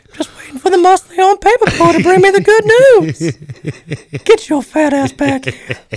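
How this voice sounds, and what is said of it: Cartoon character voice impression. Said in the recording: “that does that voice so perfectly ... my Herbert”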